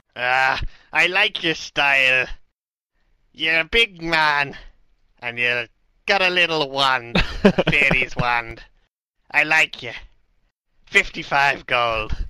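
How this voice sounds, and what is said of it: Strange Irish Scottish Welsh accent. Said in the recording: “the man with a strange Irish, Scottish, Welsh accent ... Pirate.”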